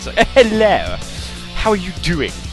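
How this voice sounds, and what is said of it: Put-on posh British accent. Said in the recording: “do proper British accents.”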